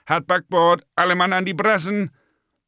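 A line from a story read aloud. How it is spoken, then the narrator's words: Bellowing. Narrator (German): Kommandos in die Straßen und Gassen brüllte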